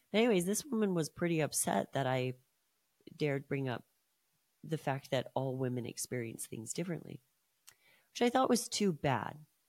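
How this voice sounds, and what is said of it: Hoarse, strained voice. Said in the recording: “My voice is still shot from this cold that I had last week”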